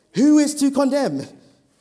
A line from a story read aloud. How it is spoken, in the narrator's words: Paul shouts